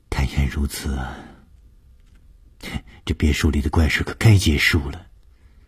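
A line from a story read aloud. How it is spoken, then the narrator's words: Sighing. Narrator (Chinese): 舒子音听完了以后叹了一口气说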